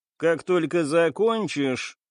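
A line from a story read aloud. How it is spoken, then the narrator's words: Grim order. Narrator (Russian): мрачно приказала женщина-офицер своему напарнику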